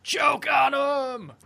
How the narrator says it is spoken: Screams

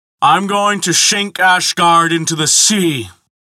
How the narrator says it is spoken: he bellowed

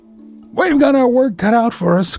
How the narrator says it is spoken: cried Fred Rover

